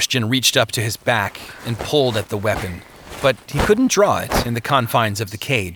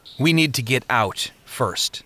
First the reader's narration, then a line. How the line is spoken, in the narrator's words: said Christian